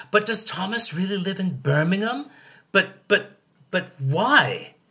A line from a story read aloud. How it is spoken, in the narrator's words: a well-meaning London-based person stammers